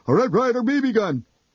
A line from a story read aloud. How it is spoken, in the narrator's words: Horrified, I heard myself blurt